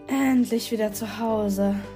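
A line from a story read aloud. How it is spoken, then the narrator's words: Sigh. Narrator (German): seufzte Sierra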